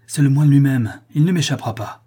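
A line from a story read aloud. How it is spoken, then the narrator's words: Exclaimed. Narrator (French): s'écria-t-il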